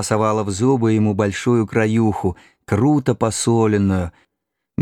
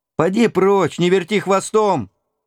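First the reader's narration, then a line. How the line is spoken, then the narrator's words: Grandmother shouting. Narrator (Russian): крикнула бабушка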